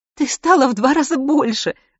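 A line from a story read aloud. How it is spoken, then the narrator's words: Strained forced-out words. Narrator (Russian): сумела выдавить Селена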